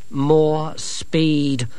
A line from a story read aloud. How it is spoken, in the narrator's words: said Angelo grimly